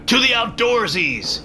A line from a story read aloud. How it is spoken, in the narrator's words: yelled a guard